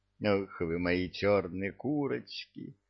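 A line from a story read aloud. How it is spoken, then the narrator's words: Tender. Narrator (Russian): ласково промолвил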